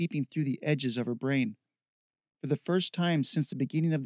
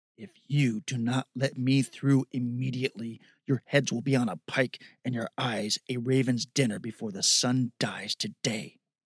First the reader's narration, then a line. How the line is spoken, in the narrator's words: Scavia growled